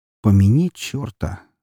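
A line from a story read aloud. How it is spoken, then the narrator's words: Mildly displeased mutter. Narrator (Russian): с легким недовольством в голосе пробормотал Уваров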